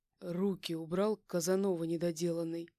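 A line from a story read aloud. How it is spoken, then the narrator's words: Growled. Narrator (Russian): Прорычал он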